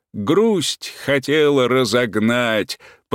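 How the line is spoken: Deep bass voice. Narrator (Russian): подхватил Иван Иваныч басом

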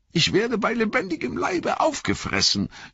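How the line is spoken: Wailing lament. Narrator (German): jammerte Pippin

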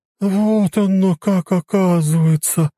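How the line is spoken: Drawling. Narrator (Russian): протянула Марья Ивановна

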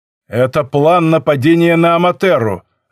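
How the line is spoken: Harsh bark. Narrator (Russian): рявкнул Акено

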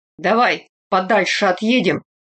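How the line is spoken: Gruff mutter. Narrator (Russian): на ходу буркнув

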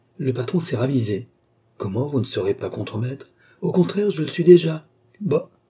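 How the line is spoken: Astonished exclamation. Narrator (French): s'exclama Cerise stupéfaite

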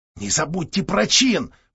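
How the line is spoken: Whispered from behind. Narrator (Russian): прошептал сзади Христиник

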